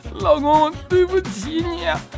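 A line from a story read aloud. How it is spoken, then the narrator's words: Crying. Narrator (Chinese): 吊嫂捂着脸，这一下子就哭出来了，说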